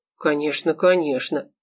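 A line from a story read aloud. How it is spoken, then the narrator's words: Muttered. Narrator (Russian): пробормотал Олег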